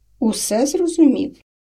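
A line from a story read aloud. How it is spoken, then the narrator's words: Calm answer. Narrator (Ukrainian): відповів спокійно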